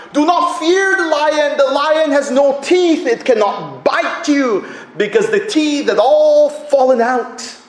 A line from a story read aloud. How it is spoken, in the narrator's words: the child cried out